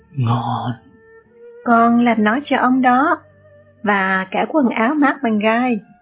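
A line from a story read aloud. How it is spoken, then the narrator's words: Warm smiling. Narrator (Vietnamese): Ông mỉm cười và nói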